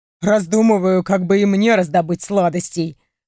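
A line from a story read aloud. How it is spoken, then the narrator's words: Chuckling. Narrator (Russian): Хохотнул он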